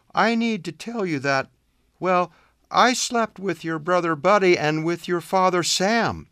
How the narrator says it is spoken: began in a trembling voice

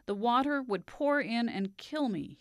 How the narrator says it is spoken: he said

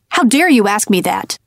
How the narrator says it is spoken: he snapped

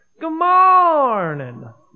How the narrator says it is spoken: Rabbit shouted back

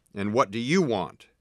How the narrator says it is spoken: the wizard roared

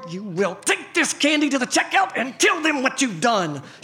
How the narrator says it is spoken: said through clenched teeth

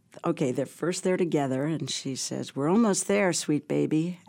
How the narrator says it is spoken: Abby said soothingly

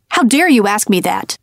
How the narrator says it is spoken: he snapped

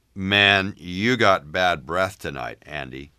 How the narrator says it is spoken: he said, chuckling

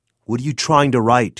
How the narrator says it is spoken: shouted

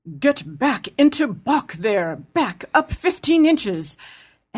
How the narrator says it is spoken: one said, quite fiercely

